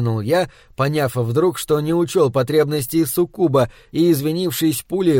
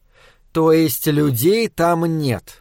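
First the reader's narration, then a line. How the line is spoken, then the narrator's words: Gloomy statement. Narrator (Russian): мрачно констатировала Соня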